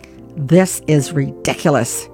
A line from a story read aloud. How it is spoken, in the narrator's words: muttered